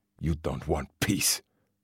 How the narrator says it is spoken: the man spat

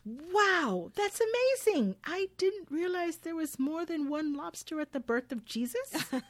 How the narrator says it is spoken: Karen excitedly responds

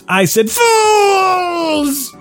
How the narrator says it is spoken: Invader Zim screamed

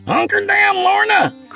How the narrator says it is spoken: Craig hollered from the sheltering trees

